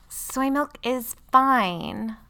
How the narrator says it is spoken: Lily whined

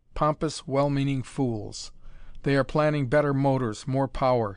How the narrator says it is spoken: he laughed harshly

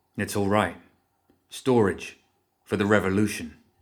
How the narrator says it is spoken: he said

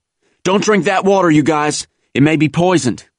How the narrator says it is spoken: A company corpsman came up yelling

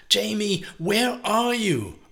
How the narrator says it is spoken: Teresa was shouting again before she had breath to

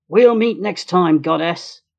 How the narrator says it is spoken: Hector angrily shouting

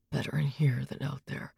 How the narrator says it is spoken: kept muttering to himself

